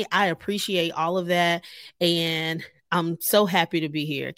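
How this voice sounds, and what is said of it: Joyful, upbeat voice. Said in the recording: “hear the joy in my voice?”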